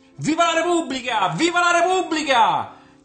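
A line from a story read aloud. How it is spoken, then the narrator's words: Receding shout, children echoing. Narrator (Italian): gridò allontanandosi l'uomo a cui fecero eco i bambini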